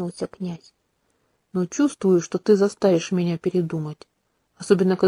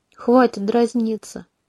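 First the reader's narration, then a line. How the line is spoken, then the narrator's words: Tired, dismissive. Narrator (Russian): устало отмахнулась я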